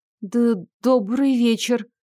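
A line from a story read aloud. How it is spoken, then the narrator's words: Embarrassed stammering greeting. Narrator (Russian): Слегка запинаясь от смущения, поздоровалась я с ним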